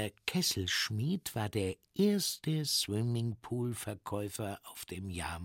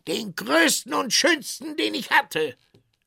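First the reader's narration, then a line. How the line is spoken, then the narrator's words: Tinker calling out. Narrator (German): rief der Kesselschmied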